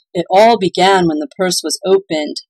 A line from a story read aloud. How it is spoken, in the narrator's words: moaned Claus